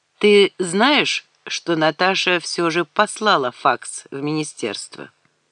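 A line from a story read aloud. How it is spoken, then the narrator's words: Calm. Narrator (Russian): Алекс спокойно сказал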